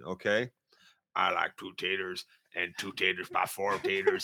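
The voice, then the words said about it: Imitates a character's voice. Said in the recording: “my impression of Eugene”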